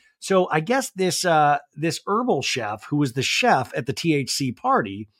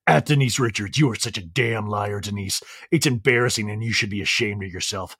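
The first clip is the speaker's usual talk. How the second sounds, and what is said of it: Put-on voice for a quoted man. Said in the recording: “I'm gonna do a voice for him because I'm just tired of my voice”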